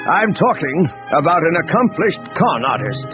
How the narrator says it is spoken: Pellion said, raising his voice so that the entire bridge could hear

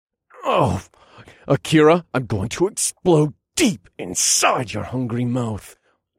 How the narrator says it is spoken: grunted

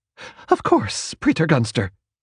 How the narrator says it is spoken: Waverly said tightly

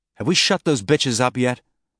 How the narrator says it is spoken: Ashford snapped

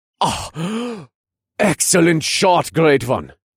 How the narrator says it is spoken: Jorgen gasped

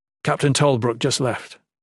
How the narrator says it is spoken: Jen replied

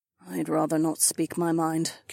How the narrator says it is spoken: Kat muttered

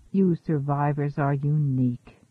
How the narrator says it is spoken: murmured the artist

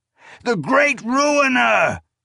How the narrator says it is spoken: Aengelis cried

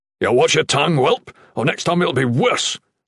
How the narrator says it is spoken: the captain barked

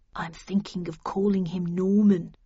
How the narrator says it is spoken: murmured Perkins

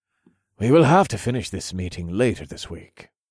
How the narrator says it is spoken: Bea said calmly

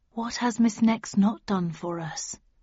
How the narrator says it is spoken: intoned quietly

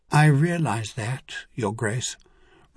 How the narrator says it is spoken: Reno responded calmly

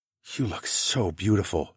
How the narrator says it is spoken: I whispered

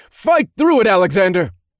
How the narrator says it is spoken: I shouted as the wind whipped around us

